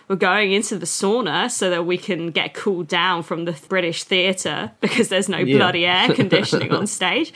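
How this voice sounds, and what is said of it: Bad put-on Australian accent. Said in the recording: “oh, this is my bad Australian accent.”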